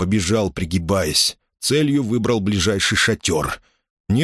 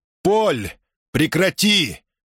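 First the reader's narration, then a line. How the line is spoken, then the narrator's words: Shout. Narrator (Russian): крикнул Мусса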